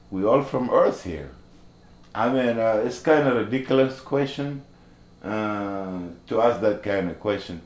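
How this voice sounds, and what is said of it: Non-native English accent. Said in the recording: “You have accent.”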